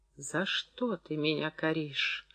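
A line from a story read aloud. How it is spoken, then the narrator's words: Whisper. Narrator (Russian): шепотом начала говорить Клашка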